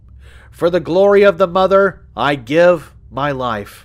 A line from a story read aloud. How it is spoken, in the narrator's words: he cried